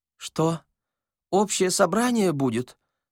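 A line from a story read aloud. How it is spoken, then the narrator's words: Thin-voiced question. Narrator (Russian): спросил Васисуали Андреевич тоненьким голосом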